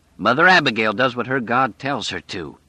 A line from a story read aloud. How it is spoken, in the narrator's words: he said harshly